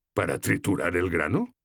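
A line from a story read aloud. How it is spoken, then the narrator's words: Amused tone. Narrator (Spanish): dijo en tono divertido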